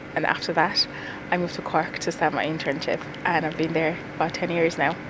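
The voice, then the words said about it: Irish Cork accent. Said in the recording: “So say Cork again for me. ... So you picked up the Cork accent,”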